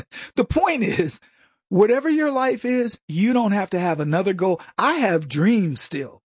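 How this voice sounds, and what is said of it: Usual voice. Nothing is said of it.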